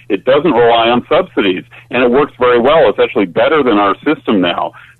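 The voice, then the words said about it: Canadian English accent. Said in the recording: “You sound like a Canadian ... I still haven't, uh, you know, lost my accent.”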